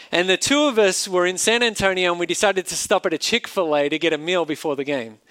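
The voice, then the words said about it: Australian accent. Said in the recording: “I had my Australian accent.”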